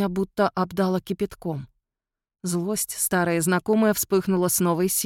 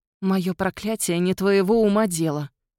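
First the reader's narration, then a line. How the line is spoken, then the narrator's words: Hissed through teeth. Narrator (Russian): процедила я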